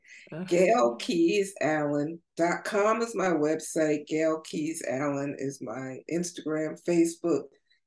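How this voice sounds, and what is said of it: Slightly hoarse voice. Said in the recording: “I'm starting to get hoarse. I've been talking so much today.”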